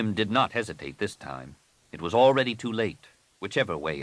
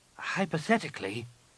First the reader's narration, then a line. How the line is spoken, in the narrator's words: Nenyim said hesitantly